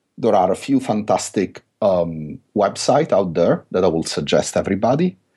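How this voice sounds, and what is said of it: Italian accent. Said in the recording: “pardon my Italian accent”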